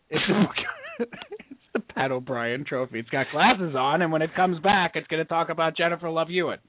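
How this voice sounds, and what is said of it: Poor Pat O'Brien impression. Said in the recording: “worst impression of the night ... Pat O'Brien ... Not nasally enough.”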